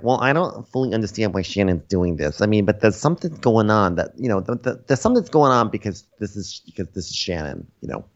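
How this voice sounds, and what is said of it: Imitation of Gina's accent. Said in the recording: “I just trailed off in Gina accent.”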